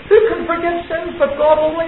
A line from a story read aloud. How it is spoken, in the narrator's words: they cried